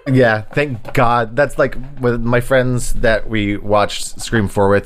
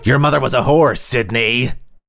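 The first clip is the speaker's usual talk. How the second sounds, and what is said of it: Imitates a horror movie killer's voice. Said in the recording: “my ghost face impression”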